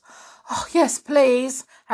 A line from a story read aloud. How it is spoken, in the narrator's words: Harry panted